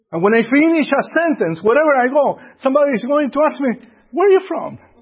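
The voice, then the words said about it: Speaks with a foreign accent. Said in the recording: “I know I do have an accent.”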